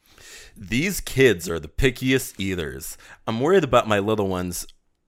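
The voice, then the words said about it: Deep commercial announcer voice. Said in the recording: “it's funnier if you say it with a deep voice”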